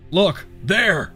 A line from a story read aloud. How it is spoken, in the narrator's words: Woods shouted